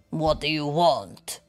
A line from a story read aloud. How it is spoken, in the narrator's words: Waffle groaned with a growl